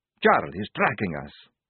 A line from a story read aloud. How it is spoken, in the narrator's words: He whispered urgently